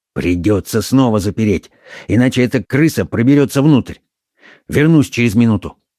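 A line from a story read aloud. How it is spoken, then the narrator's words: Quick whisper. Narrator (Russian): Он быстро зашептал своим спутникам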